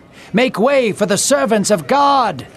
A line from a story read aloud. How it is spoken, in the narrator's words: she yelled even louder